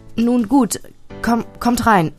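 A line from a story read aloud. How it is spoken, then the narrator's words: Mother stammering. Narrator (German): stammelte meine Mutter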